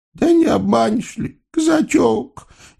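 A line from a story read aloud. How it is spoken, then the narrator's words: Sniffling. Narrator (Russian): Яга кривым носом всхлипнула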